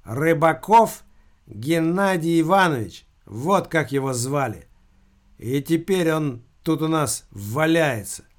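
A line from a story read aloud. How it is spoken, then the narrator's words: Loud reading aloud. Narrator (Russian): Бес Машка громким голосом прочитал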